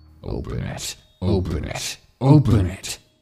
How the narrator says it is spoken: the thing on the other side of the door howled

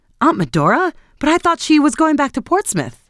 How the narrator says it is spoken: she answered placidly

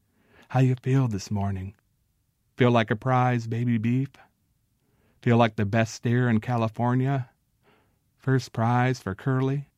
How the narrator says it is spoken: he called softly

